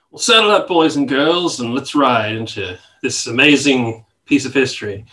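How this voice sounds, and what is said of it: Put-on American cowboy accent. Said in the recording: “Was that meant to be an American accent?”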